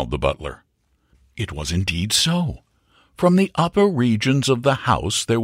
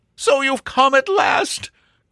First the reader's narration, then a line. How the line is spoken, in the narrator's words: cried Sir Jasper